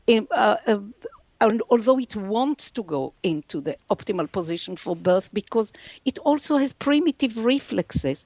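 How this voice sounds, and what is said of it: Non-native English accent. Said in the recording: “my accent is not so good”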